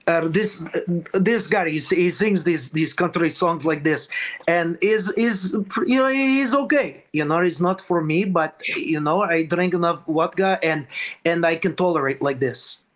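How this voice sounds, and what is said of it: Put-on old Ukrainian accent. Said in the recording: “Oh, probably like old Ukrainians. Like, like a lot of my family members”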